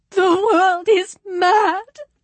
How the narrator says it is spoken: she said, sobbing

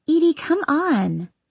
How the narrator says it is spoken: she giggles

